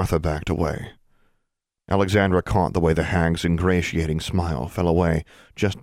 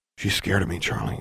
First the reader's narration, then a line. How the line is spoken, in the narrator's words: whispered